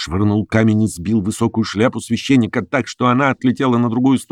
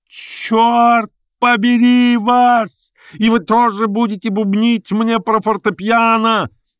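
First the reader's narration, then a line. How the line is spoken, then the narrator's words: Yell. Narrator (Russian): завопил адвокат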